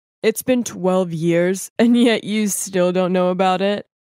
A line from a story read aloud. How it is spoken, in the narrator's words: One of the men just laughed and said